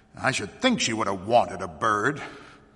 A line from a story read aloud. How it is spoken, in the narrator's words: she added, almost bitterly